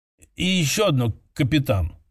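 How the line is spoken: Hesitant officer. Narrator (Russian): неуверенно добавил офицер

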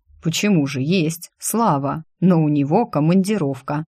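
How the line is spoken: Condescending, smiling. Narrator (Russian): Кронин со снисходительной улыбочкой добавил

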